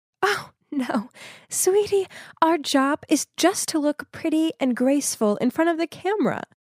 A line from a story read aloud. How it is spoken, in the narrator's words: She just laughed and said